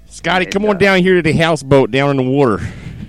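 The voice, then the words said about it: Exaggerated Delaware accent. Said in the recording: “fantastic Delaware accent ... South Jersey, Delaware, Philly”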